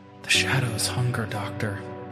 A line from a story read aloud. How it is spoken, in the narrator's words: The patient, an elderly woman with vacant eyes, whispered